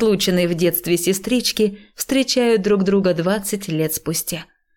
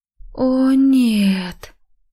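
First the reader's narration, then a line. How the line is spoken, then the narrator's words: Near moan. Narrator (Russian): Я чуть не застонала, чувствуя себя просто героиней индийской мелодрамы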